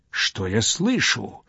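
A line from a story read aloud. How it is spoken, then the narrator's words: Terrified exclamation. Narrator (Russian): воскликнул Домержи, затрепетав от ужаса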